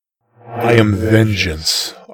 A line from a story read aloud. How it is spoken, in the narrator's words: growled in reply